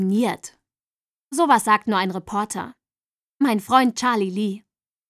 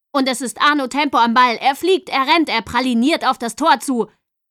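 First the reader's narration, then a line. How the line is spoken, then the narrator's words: Reporter shouting into microphone. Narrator (German): der Reporter, der in sein Mikrofon schrie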